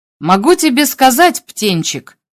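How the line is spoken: Dry. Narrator (Russian): сказал он сухо

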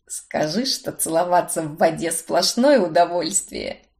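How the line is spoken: Purring. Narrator (Russian): Промурлыкал он

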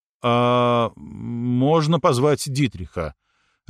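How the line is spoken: Confused mumble. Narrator (Russian): растерянно промямлил Алекс, потому что больше никого по имени не помнил, даже маму Дитриха

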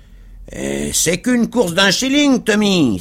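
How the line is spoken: Grumpy shout, coachman. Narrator (French): s'écria le cocher avec mauvaise humeur

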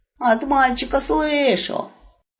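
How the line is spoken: Grumbling mutter. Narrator (Russian): пробурчала взлохмаченная голова

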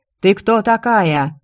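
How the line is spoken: Shouting soldier. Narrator (Russian): кричал военный

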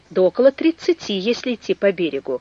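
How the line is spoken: Plain. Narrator (Russian): ответил инженер

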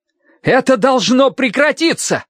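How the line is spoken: Desperate shout. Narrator (Russian): с отчаянием в голосе крикнул он

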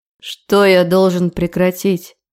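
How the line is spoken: Growling. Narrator (Russian): рычал он на меня

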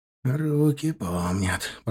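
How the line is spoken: Whispered. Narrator (Russian): прошептал Косой

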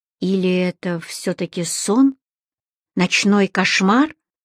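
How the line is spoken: Whisper again. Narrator (Russian): Снова шепот

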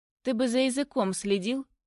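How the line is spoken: Calm. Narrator (Russian): Говорит спокойно

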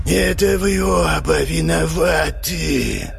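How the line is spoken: Drawling hoarse ghostly hiss. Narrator (Russian): прошипел тягучим хриплым голосом призрак

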